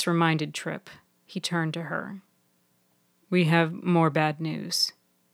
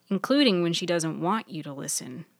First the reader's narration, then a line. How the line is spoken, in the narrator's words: Maddie chuckled